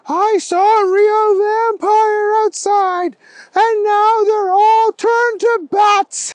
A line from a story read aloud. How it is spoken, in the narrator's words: he yelled